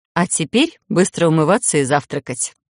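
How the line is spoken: Mock-stern order. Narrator (Russian): приказала нарочито строго

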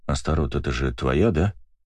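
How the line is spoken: Quiet question. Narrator (Russian): тихо спросил я

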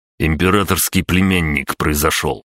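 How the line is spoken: Grumbling. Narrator (Russian): проворчал Владимир

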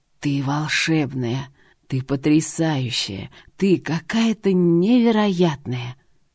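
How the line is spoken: Hoarse burning whisper. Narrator (Russian): Хриплый шепот обжигал

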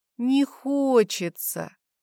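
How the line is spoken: Drawled reply. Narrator (Russian): протянула в ответ

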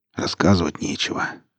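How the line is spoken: Muttered. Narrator (Russian): пробурчал Старпом

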